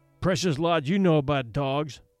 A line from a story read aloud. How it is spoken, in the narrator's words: her brother sneered